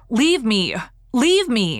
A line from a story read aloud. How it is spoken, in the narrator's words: in a tone of fierce anger, she called out